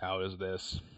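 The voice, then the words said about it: Robotic-sounding voice. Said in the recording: “Now you sound like a robot.”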